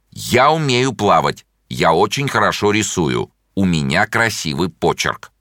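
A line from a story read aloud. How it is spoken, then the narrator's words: Fairly loud. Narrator (Russian): довольно громко сказал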